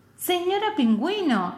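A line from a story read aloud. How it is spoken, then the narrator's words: Exclaiming. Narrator (Spanish): exclamó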